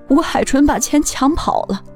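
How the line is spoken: Crying. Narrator (Chinese): 兰兰哭着对公公说

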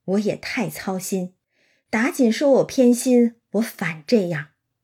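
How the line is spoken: Sighing. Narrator (Chinese): 贾母叹道

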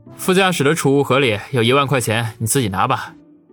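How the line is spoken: Resigned wry smile. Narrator (Chinese): 王宇无奈苦笑，说道

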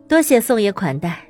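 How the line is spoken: Laughing question. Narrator (Chinese): 宋成刚笑着问

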